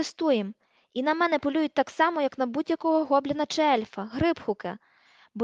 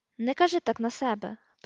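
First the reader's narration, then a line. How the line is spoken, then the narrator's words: Mutter. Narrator (Ukrainian): пробурмотів Рон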